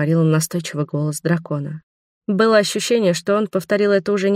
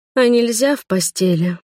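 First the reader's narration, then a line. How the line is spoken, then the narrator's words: Sleepy coo. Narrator (Russian): проворковала я сонным голосом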